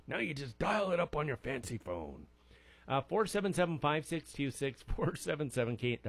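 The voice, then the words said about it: Old man impression voice. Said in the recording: “That was my best impression of an old man. Or this might be my best impression.”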